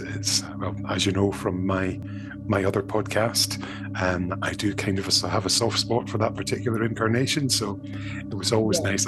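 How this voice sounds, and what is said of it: Scottish accent. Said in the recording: “another Scottish accent ... a good Scottish one there”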